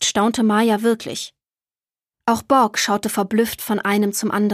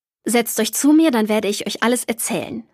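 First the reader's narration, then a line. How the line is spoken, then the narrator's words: Plain grandfather. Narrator (German): sagte Opa Emil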